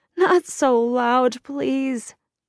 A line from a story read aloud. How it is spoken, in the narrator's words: Jason begged